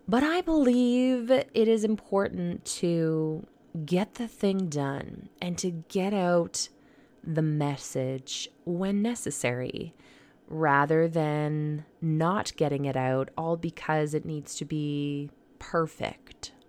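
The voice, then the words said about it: Quiet, soft, low voice. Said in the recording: “my voice is a little quieter, maybe a little seductive, more than usual”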